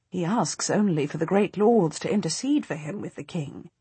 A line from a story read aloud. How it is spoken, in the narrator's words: I say calmly